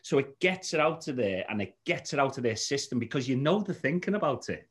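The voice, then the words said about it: Liverpool Scouse accent. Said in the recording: “you notice the accent ... you delivering it as a Scouser”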